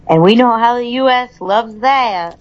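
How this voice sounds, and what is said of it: Put-on southern accent. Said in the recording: “I put a southern accent in the word that.”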